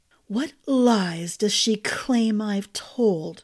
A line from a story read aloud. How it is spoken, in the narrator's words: His voice dropped to a chill whisper